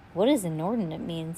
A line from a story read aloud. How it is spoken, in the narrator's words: somebody asked